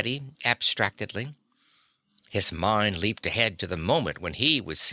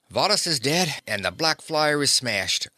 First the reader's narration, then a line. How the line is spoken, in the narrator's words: said Davis cheerfully